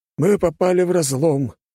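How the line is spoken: Loud sigh. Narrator (Russian): капитан громко вздохнул

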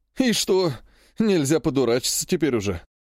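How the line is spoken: Grumbling. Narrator (Russian): заворчал смуглый азиат

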